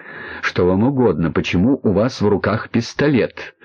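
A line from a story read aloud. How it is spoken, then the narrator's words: Forced calm speech. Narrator (Russian): Грибовский тоже старался говорить спокойно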